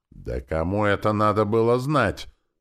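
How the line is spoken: Yelled, excited. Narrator (Russian): заорал Валера и возбужденно заговорил

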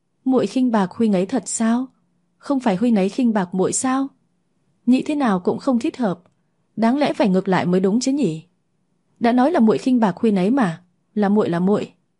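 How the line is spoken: Trembling, patient question. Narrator (Vietnamese): Môi Lăng Ngọc run run, vẫn kiên nhẫn hỏi lại lần nữa

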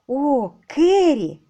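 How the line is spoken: Joyful exclamation. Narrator (Russian): радостно воскликнула Лора

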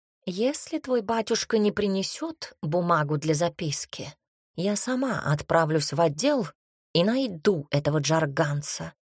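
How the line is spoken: Plain. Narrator (Russian): сказала Тома

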